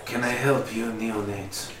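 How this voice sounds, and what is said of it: Put-on quasi-German accent. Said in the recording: “I have to have the quasi-German accent”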